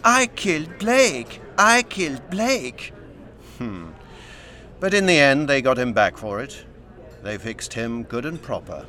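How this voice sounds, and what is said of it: Whining put-on French accent. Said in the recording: “Tarrant adopted a whining French accent.”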